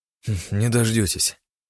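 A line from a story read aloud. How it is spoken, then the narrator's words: Snorting. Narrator (Russian): хмыкнул я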